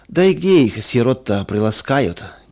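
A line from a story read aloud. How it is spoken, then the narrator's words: Heavy sigh. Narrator (Russian): тяжело вздохнул третий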